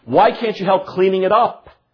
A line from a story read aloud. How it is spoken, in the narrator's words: mother angrily says to the older daughter